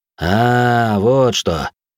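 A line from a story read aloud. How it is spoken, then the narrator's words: Doubtful drawl. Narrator (Russian): Недоверчиво протянул мужик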